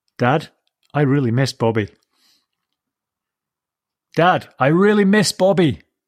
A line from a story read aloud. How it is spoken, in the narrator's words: Willie shouted over the roar of the tractor